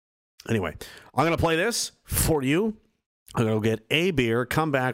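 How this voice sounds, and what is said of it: Usual voice. Nothing is said of it.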